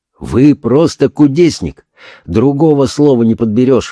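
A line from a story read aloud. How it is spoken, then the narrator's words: Exclaimed. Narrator (Russian): воскликнул он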